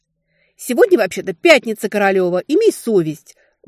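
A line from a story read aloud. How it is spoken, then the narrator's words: Indignant squeak. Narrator (Russian): возмущенно пиликнула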